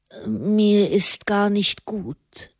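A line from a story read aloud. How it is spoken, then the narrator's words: Murmuring. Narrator (German): murmelte Fra Raimund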